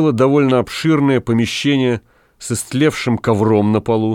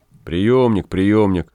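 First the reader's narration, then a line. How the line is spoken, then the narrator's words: Grumbling. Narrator (Russian): ворчал Гай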